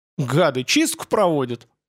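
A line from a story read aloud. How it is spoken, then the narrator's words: Indignant gasp. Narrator (Russian): ахнул Дмитрий возмущенно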